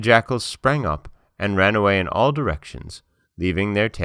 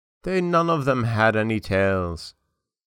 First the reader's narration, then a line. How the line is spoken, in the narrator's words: said sadly